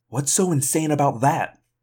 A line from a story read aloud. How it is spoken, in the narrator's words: Rachel asked sharply